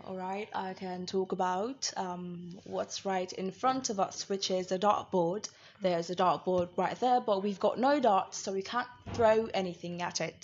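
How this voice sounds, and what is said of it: Put-on accent. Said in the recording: “I have about 14 accents ... I am in touch, literally, with this accent”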